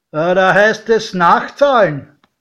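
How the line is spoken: Calling out. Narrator (German): rief

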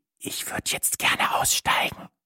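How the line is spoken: Whispered. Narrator (German): flüsterte ich

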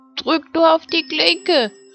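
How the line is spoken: Grandmother calling out. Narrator (German): rief die Großmutter

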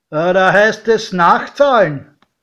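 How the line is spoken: Called out. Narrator (German): Der Türsteher rief

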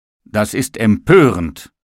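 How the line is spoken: Shouted. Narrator (German): rief der Tisch

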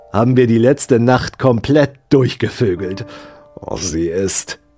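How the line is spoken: Hissing. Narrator (German): zischte

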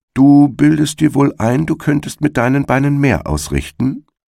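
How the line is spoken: Plain. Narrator (German): sagte er

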